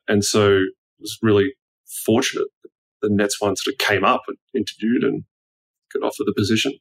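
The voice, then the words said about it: Australian accent. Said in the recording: “your accent is not particularly unique ... there's a lot of Australians around”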